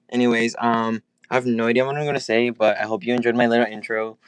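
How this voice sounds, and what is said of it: Flat monotone speaking voice. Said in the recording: “I love my monotone voice.”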